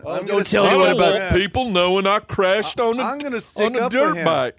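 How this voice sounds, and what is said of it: Good impression of Dr. Phil. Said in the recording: “That's a good impression.”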